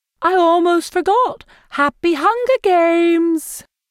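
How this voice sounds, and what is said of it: Upbeat Capitol accent imitating Effie Trinket. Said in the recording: “he falls into a capital accent as he mimics Effie Trinket, the maniacally upbeat woman”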